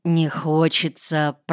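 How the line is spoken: Mumbled. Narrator (Russian): пробормотал я

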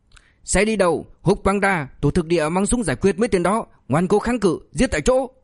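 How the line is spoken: Furious barked order. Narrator (Vietnamese): Tổ trưởng Quách mắt trợn muốn tét ra quát

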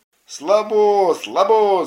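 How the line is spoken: Kids shouting. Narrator (Russian): закричали ребята

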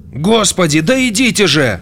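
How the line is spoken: Shout. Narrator (Russian): закричал он

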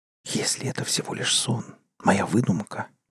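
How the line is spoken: Whisper. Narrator (Russian): прошептал

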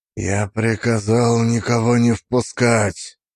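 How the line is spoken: Flat, muffled, echoing voice. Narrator (Russian): Голос его лишенной интонации прозвучал глухо, отразившись от каменных сводов

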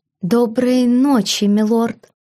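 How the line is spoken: Breathed hoarsely, sleepy little voice. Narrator (Russian): Хрипло, сонным голоском выдохнула она

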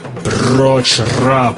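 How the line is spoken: Booming. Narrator (Russian): прогремел Болло

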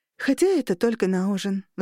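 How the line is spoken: Sighing. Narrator (Russian): вздохнула

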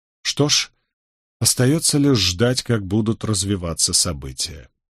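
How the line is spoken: Sighing. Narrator (Russian): вздохнул Роберт

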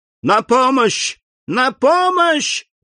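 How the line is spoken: Screaming for help. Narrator (Russian): закричала мадемуазель Дармильи

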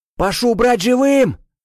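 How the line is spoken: Shouted command. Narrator (Russian): прокричал граф

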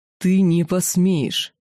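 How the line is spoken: Monstrous roar. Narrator (Russian): прорычало огнедышащее чудище

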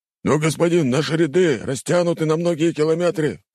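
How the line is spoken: Urgent exclamation. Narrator (Russian): воскликнул один из командиров

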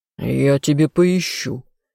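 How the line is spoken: Growl. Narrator (Russian): рыкнул любимый

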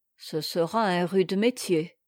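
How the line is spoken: Gloomy grumble. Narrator (French): grommela Maître Luc, dont le front s'était considérablement rembruni

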